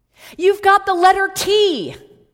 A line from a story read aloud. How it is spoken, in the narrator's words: started shouting